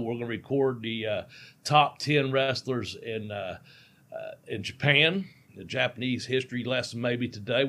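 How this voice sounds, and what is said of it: Hillbilly accent. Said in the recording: “my hillbilly accent”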